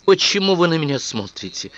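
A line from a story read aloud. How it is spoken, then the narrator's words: Irritated question. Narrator (Russian): раздраженно спросила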